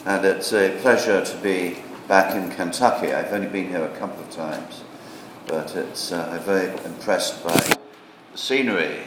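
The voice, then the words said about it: Non-American accent. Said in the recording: “I've spent 28 years in this country, as I'm sure you can tell from my accent.”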